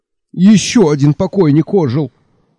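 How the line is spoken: Frightened yell. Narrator (Russian): испуганно заорал Мелифару

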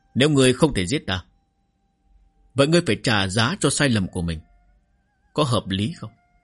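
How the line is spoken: Plain. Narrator (Vietnamese): Doãn Quan hỏi

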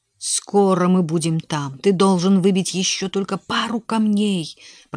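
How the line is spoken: Whispered. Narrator (Russian): прошептал он

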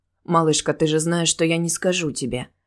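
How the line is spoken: Soft reply. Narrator (Russian): мягко ответил Келфер

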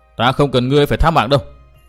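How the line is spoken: Irritated snapping. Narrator (Vietnamese): Tư Mã Minh bực mình gắt

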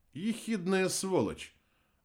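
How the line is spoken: Calm reply. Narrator (Russian): ответил Герра спокойно

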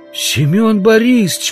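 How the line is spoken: Exclamation. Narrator (Russian): воскликнул Удалов

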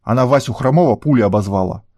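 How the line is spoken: Growl. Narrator (Russian): Болик рыкнул

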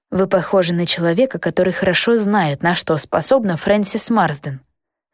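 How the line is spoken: Sighing. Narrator (Russian): вздохнула я

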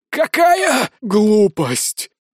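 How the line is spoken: Hoarse wheeze. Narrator (Russian): хрипит темный владыка

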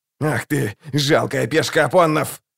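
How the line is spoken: Growled. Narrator (Russian): зарычал Локон

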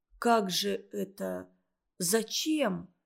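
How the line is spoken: Quiet, reproachful. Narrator (Russian): тихо, с укором произнес Олег

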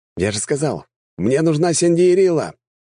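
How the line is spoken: Repeated shout. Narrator (Russian): прокричал я еще раз

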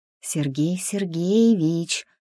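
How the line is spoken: Ingratiating whisper in ear. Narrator (Russian): вкрадчиво шепнула Маша ему на ухо

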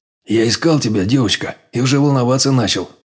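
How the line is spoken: Relieved exhale. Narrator (Russian): облегченно выдохнул я

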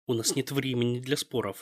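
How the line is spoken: Growled. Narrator (Russian): зарычала Ас

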